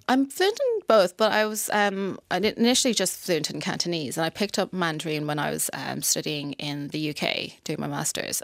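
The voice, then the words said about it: Mid-Atlantic English accent. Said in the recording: “what accent do I have? They were like, mid-Atlantic, that's what they placed me as.”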